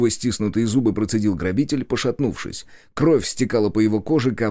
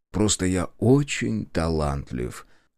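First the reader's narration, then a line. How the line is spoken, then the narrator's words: Indifferent. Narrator (Russian): равнодушно отозвался я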